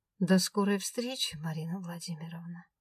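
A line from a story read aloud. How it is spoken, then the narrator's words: Promised gently. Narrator (Russian): Ласково пообещал он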